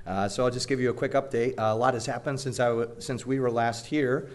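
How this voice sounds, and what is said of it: Slightly gravelly, hoarse voice. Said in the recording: “my voice is a little gravelly this morning, I'm recovering from laryngitis.”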